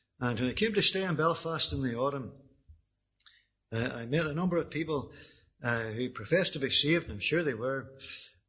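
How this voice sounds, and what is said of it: Strong regional accent, slight whine. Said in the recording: “you could likely understand from the accent, you pick up a wee bit of a whine, that it hadn't been very far travelled”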